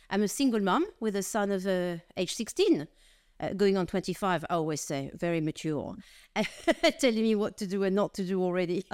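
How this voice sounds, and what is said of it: French accent. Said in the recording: “I'm French of origin, as you probably gather from my accent.”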